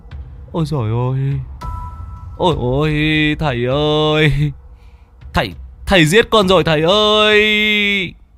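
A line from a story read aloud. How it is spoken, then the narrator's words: Wailing, on verge of tears. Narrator (Vietnamese): gia chủ mới mếu máo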